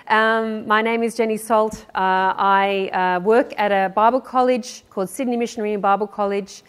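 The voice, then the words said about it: Australian accent. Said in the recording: “As you can tell from my accent, I am not from these parts. I come from down under”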